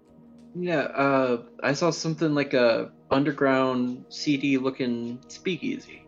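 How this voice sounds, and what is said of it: Put-on accent. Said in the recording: “why am I talking in this accent? I'm French.”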